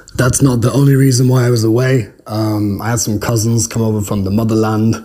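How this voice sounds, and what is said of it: Hoarse voice. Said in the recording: “It's a little bit hoarse. I'm just getting over a fairly long bout of laryngitis.”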